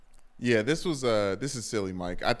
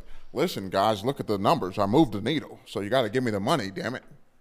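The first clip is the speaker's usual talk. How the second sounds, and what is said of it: Mid-Atlantic old newsreader accent. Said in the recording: “Why did you give Nick Saban a mid-Atlantic accent? ... reading the news during World War II”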